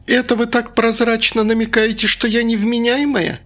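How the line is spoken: Shrill combative squeal. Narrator (Russian): взвизгнула соседка, всегда готовая ринуться в бой

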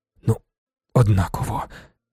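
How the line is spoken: Muttered. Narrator (Ukrainian): пробурмотів він

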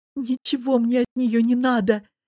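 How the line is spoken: Sobbing. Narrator (Russian): всхлипывая, отозвалась Лиза

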